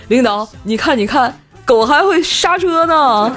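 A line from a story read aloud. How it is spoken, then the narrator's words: Delighted laughing. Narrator (Chinese): 无忌给乐坏了，笑着就说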